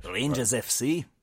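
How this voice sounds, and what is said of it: Put-on Scottish accent. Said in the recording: “I should probably use be using a Scottish accent ... Ah, there you go.”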